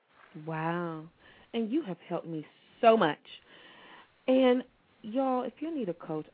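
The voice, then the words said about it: Country twang accent. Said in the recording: “I got my country twang on”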